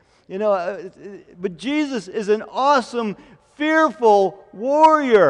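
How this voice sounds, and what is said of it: Usual voice. Nothing is said of it.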